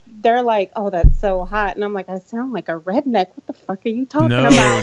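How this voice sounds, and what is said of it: Southern US accent. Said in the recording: “am I detecting a little bit of an accent from you? ... Got that Southern accent ... Sweet and innocent when you hear that Southern accent.”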